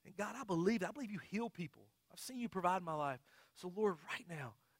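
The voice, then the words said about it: Preacher voice. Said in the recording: “I even talk in my preacher voice like that.”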